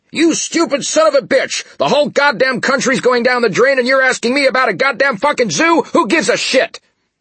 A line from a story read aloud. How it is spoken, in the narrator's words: a medical corps colonel got on the line, only to scream at the lieutenant